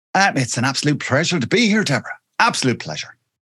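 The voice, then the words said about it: Irish accent. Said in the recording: “your gorgeous accent ... I'm from a little place called Wexford, which is in the sunny southeast of Ireland”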